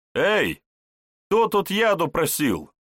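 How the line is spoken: Cheerful shout. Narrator (Russian): весело выкрикнул Вожников

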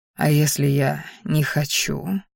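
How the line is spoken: Quiet delirious whisper. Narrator (Russian): тихо прошептал, вновь словно в бреду

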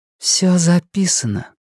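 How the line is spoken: Breathless exhale. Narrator (Russian): выдохнула Фрэнни

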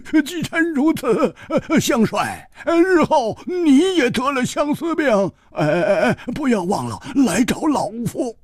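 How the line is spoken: Laughing. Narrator (Chinese): 张简斋 笑道

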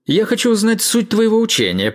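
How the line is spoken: Shouting into ear. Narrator (Russian): прокричал император прямо в ухо мастеру

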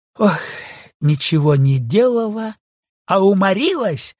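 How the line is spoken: Laughing shout. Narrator (Russian): крикнула она, смеясь

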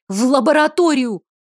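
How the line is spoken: Woman barking. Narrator (Russian): рявкнула она на Калерию

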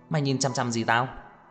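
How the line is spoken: Angry, frowning. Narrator (Vietnamese): Trang Hạo Nhiên cau mày tức giận

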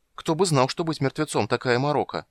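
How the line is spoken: Exclaiming. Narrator (Russian): воскликнул Кендер

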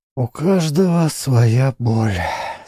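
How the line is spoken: Sighing. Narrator (Russian): со вздохом сказала Гуле

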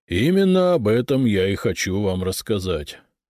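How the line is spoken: Sighing. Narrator (Russian): вздохнул Набиль

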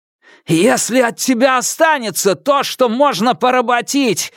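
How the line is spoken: Roaring. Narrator (Russian): взревел я

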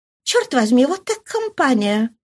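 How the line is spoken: Muttered. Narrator (Russian): пробормотала она

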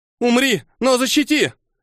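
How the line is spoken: Full-voiced scream. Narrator (Russian): во весь голос закричала она

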